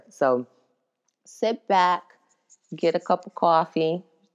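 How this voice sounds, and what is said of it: Put-on Northeastern US accent. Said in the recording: “doing a little Northeast accent there”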